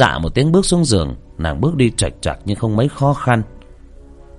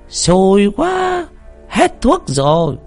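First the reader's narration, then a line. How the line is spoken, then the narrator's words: Cry out. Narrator (Vietnamese): Trung Tử la lên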